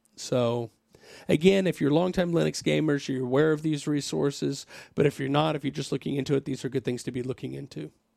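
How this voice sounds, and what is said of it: Hoarse, failing voice. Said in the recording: “My voice is about to go away completely”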